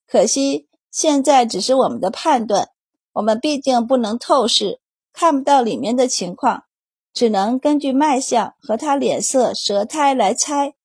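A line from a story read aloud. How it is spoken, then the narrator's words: Sighing. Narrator (Chinese): 安宝叹息道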